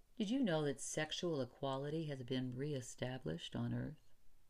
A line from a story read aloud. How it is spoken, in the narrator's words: he calmly, in excellent Russian, said